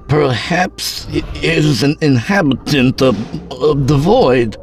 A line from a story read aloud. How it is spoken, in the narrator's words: Chaebok stammered